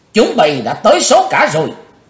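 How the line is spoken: Loud shout. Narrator (Vietnamese): chàng hét lớn

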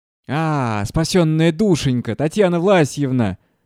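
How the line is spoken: Drunken yelling. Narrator (Russian): орал пьяный Шабалин

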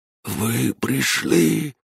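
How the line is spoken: Whisper. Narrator (Russian): прошептал

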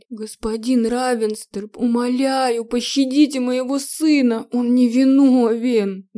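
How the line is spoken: Muffled, cracked pleading voice. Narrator (Russian): Голос просителя звучал глухо и потреснуто

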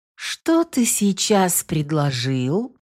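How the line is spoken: Silky, insinuating question. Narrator (Russian): вкрадчивым голосом переспросила ведьма

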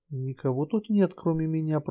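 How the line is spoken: Uneasy whisper. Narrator (Russian): прошептала Нотти, и все же ей было не по себе

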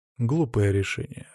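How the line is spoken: Calm. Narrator (Russian): спокойно сказал

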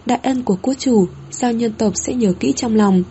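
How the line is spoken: Gentle, conflicted. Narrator (Vietnamese): Sao nhân nữ vương phun ra một hơi, vẻ mặt phức tạp, đã có thống hận, lại có thổn thức, giọng điệu dịu dàng

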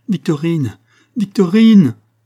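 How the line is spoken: Shouting. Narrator (French): cria-t-elle

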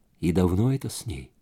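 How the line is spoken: Quietly asked. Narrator (Russian): тихо спросила Джонни

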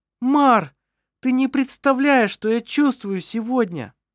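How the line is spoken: Exclaiming. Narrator (Russian): воскликнула она

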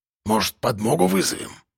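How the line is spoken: Dropped to a whisper. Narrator (Russian): Совсем перешел на шепот Кулебякин

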